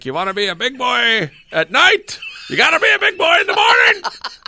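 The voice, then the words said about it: Bad impression of a father's voice. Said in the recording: “that's a bad impersonation of my father”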